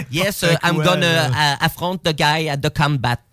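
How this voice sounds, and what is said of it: Exaggerated French accent in English. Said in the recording (French): “je peux pas avoir plus l'accent français”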